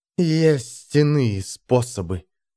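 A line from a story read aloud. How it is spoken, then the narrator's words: Hissed. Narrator (Russian): прошипела она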